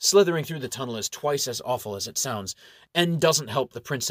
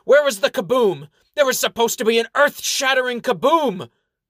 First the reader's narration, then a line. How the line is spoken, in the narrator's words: He sticks his head through the hole, shouting to his fellow adventurers